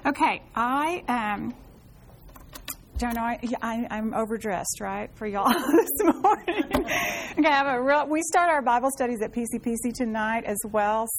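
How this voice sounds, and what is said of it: Congested voice, not projecting. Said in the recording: “I have what probably 90% of you have right now going on, the drainage and the junk ... mountain cedar ... my voice isn't projecting”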